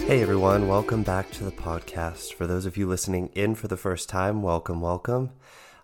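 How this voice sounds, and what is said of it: Voice sounds different, unwell. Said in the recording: “you might notice that I sound a bit different this week. I'm still recovering from COVID”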